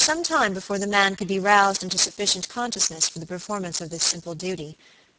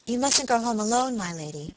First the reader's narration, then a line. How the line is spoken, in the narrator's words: she said